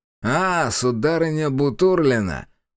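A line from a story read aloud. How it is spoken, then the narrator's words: Contemptuous, through teeth. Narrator (Russian): презрительно процедила Сокин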